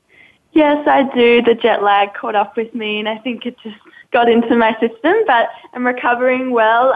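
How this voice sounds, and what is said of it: Australian accent. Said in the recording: “her accent from Australia ... she comes from Down Under”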